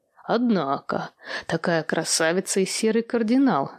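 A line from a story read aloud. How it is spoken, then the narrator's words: Laughing. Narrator (Russian): засмеялся он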